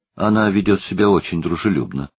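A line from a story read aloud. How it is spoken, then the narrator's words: Plain old man. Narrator (Russian): сказал старик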